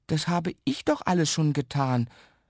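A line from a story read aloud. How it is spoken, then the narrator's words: Stammered. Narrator (German): stammelt Jan Ole deshalb nur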